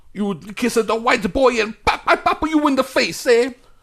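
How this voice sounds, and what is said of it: Exaggerated Mario-style Italian accent. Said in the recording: “How come he's doing the Mario accent? I thought he was a Puerto Rican.”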